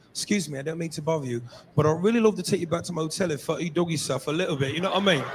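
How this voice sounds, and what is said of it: Put-on English accent. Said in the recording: “English accent, that just roll off the tongue different”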